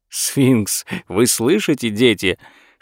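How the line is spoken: Whispering while laughing. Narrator (Russian): шептал и смеялся Лео Ауфман

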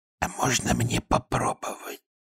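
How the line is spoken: Whispered. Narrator (Russian): шепнула

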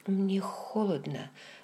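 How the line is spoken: Very quiet. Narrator (Russian): сказала очень тихо

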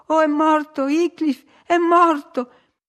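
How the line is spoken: Heartbroken sobbing. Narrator (Italian): scoppiarono in singhiozzi da spezzare il cuore

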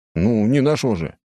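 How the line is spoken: Snorting. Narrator (Russian): хмыкнул я

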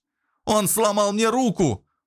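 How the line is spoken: Young man wailing. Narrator (Russian): завопил парень, совсем недавно ощущавший себя альфа-самцом

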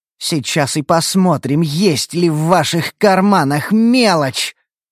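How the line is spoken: Angry hiss. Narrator (Russian): злобно прошипела Шия

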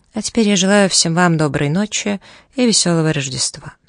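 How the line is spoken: Calm, audible to all. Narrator (Russian): спокойно, чтобы его прощальные слова расслышал каждый, и сказал

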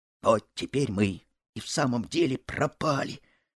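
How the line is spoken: Whisper. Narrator (Russian): шепнул Буртик товарищу

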